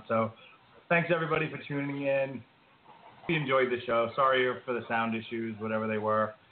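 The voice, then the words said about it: Hoarse, failing voice. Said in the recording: “my voice is going out”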